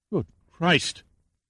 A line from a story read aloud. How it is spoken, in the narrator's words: gasped Oxley